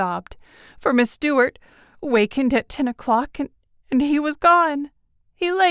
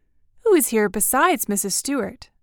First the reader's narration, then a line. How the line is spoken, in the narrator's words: I asked